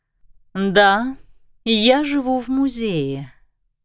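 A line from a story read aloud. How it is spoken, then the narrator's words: Calm but desperately insistent. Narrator (Russian): произнесла она спокойно, но с каким-то почти отчаянным напором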